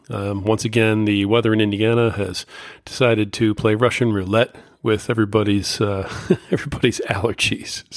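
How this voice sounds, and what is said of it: Hoarse voice. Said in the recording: “pardon my voice. I'm a little bit hoarse.”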